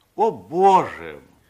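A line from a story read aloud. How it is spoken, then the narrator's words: Despairing exclamation. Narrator (Russian): воскликнул с отчаянием Андерсен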